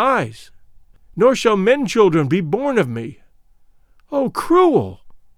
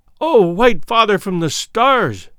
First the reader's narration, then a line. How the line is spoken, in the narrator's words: she cried